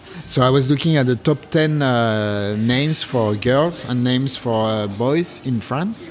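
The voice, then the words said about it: French accent. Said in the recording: “I'm French, in case you didn't notice with my accent.”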